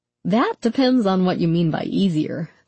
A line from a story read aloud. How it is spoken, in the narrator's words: the doctor said, laughing sympathetically